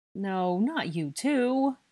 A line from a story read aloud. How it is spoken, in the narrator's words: Blaze moaned